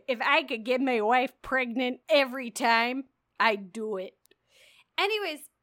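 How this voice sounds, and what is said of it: Exaggerated Chicago accent. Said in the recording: “like also like all the way Chicago accent.”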